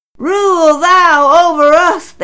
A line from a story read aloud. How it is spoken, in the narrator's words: shouted